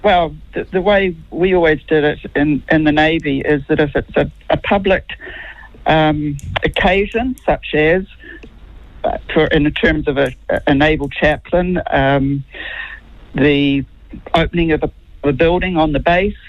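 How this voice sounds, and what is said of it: New Zealand accent with American tinge. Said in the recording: “You have to explain the accent... I'm a New Zealand-born Kiwi... I'm told that I have an American accent now”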